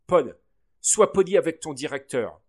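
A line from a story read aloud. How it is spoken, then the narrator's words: Father scolding. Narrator (French): gronda papa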